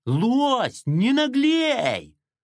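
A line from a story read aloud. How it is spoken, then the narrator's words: Shrill squeal. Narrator (Russian): просто визжал Ара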